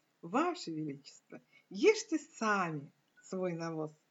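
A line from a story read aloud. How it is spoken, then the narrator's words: Calm. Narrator (Russian): этот человек, совершенно спокойно, сказал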